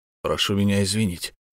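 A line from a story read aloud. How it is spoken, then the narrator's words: Embarrassed mumble. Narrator (Russian): смущенно пробормотал Хвостов погибельский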